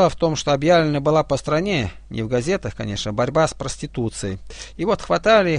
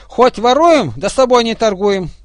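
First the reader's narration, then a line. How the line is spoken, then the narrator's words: Shouting. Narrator (Russian): кричали первые вторым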